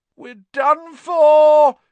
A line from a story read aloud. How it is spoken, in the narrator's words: he moaned as the ceiling sagged